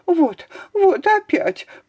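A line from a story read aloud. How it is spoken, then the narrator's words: Babbling lady. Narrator (Russian): пролепетала барыня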